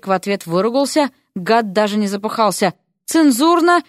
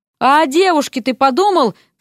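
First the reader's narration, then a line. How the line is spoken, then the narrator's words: Shouted. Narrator (Russian): крикнул он Эрику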